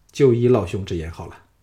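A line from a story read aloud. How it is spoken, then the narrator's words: Calm, indifferent. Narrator (Chinese): 项少龙淡淡的说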